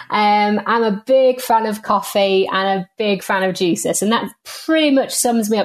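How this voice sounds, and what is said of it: Northern English accent. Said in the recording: “I'm very jealous of your accent ... I'm from the north of England. So unfortunately, don't sound quite like the Queen.”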